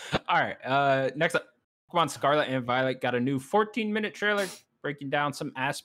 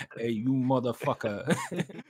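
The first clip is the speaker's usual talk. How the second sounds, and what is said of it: Mock Italian-American mobster voice. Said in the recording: “fake voice ... Like Tony Soprano voice.”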